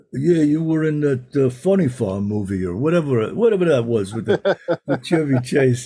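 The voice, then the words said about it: Sylvester Stallone impression. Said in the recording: “That's a great impression.”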